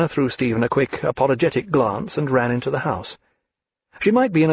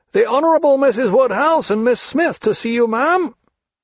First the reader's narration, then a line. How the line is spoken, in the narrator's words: a footman came stumping into sight at the end of the gravel walk, and called out in a strong voice